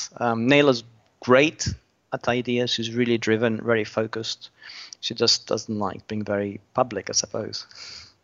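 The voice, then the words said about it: Mixed Australian-British accent. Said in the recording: “I can't place your accent... I'm Australian originally... I lived in Britain for a very long time”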